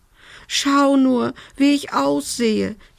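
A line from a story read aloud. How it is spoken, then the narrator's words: Wailing. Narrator (German): jammerte sie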